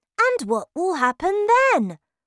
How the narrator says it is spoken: I asked, shaking excitedly

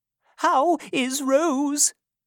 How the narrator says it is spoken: cried Mrs

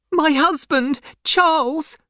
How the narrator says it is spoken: she cried

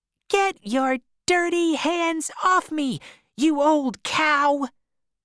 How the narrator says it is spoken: Holly shouted

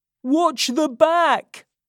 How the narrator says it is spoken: Charlie shouted through this window to the crowd below

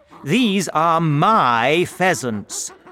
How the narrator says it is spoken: shouted Mr

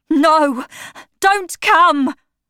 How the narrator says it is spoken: Septimus cried out, for he could not look at the dead

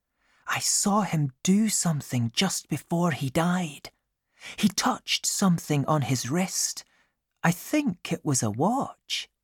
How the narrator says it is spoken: whispered Amy

